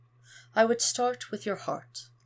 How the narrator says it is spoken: sighs

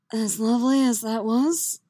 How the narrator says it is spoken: he says, a rasp in his voice that Yennefer knows full well means he's more than a little hard in his trousers

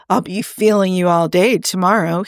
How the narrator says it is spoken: he purred

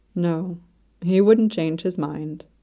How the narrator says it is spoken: His Radiancy said quietly

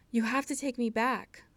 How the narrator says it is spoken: Styles panted

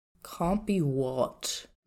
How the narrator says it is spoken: Niu Huaisong grumbled

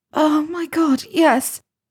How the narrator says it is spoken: Hermione moaned

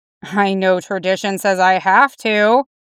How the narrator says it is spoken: he muttered

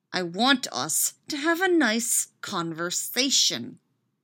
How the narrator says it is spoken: he says through gritted teeth

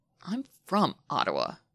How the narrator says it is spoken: Shane grumbles

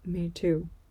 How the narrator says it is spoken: he says quietly

